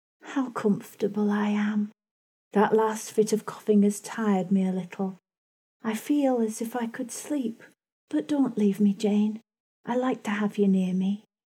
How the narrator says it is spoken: she said, in the sweetest tone

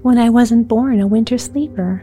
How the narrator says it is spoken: said the prince, laughing

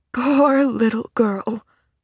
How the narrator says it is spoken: sighed the man again

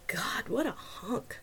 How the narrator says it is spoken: she whispered

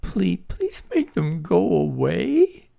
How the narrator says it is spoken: In a sobbing voice, she cried

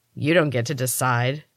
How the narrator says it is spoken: Cal growled

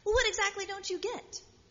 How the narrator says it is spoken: his colleague snaps back

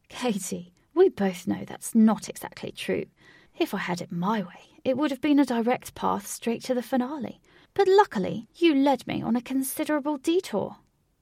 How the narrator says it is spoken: Wraith laughed and said

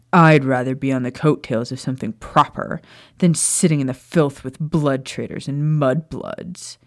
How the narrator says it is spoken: Amicus sneered

